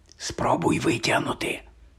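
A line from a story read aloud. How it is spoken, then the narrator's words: Whispered. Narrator (Ukrainian): прошепотів Рон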